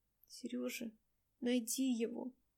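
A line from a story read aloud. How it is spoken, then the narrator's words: Whisper. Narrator (Russian): прошептала Дайнека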